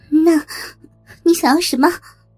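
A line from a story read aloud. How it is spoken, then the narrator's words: Trembling question. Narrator (Chinese): 苏雪薇……颤声问道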